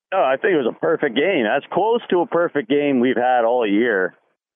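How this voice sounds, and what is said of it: Scratchy, strained voice. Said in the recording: “my voice sounds a little scratchy. I might have lost it at the game”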